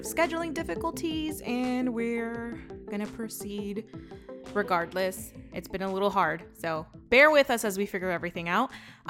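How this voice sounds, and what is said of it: Put-on Valley Girl podcast voice. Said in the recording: “I put on podcast voice ... That's his podcast voice. It's more Valley Girl style.”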